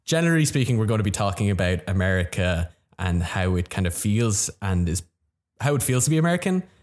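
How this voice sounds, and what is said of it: Irish accent. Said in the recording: “It's a very intelligent accent ... being Irish”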